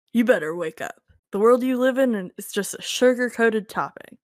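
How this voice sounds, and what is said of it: Impression of a movie character. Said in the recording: “your Blade impression”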